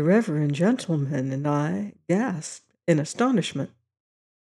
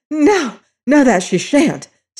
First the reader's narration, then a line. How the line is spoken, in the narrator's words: said the mother excitedly